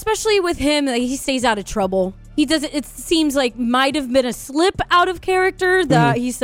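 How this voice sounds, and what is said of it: Usual voice. Nothing is said of it.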